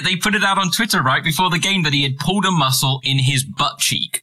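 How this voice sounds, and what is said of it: British accent. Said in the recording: “I'm British, so I have to say arse as opposed to ass ... That's just an accent thing.”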